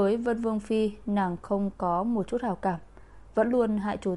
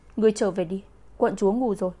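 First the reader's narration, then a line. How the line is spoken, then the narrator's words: Angry refusal. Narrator (Vietnamese): Dữ Tử vừa nghe liền tức giận cự tuyệt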